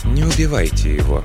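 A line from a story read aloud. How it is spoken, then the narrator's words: Quiet, calm voice. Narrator (Russian): тихим, спокойным голосом произнесла она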